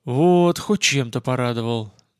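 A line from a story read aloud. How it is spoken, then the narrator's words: Relieved exhale. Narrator (Russian): наконец-то выдохнул я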